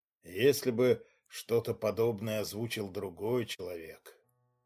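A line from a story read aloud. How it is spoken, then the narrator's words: Muffled, doomed, pained. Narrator (Russian): глухо произнес Глеб Ковальский, в его тоне слышалась странная обреченность и даже боль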